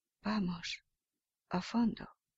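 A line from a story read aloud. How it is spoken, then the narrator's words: Secret whisper, lips barely moving. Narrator (Spanish): En voz baja, sin que lo oyeran los padrinos, sin mover casi los labios, susurró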